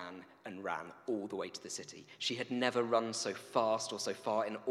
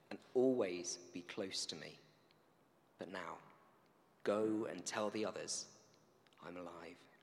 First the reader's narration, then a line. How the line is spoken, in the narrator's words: Jesus said gently